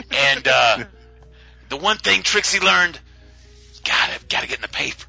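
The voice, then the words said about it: Mob boss character voice. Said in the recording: “Why am I talking like a mob boss?”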